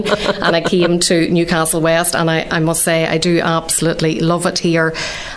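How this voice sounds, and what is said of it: Northern Irish accent. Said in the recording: “nobody wants to listen to this accent ... we love the Northern Irish accent”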